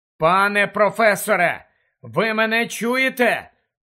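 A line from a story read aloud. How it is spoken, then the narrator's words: Loud question echoing in cave. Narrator (Ukrainian): голосно перепитав він, і голос луною розлігся у печері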